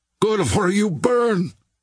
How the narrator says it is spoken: cried Terrier

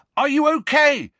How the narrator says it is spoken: he yelled

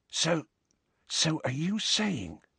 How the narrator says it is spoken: whispered Ron, as Madame Pince swept past

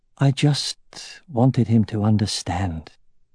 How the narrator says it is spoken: he murmured wearily

